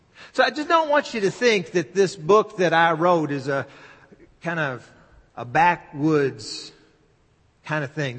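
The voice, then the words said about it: Southern American accent. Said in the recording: “I'm from the South and I speak with a Southern accent”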